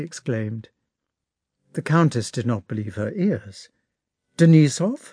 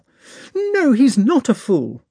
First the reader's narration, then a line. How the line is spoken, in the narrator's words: replied Natasha indignantly and seriously